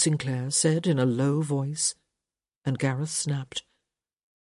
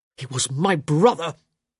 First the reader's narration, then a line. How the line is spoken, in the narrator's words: Gareth hissed